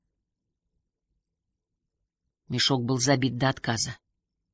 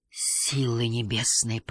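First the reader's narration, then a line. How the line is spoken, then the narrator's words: Whisper. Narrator (Russian): прошептал Юн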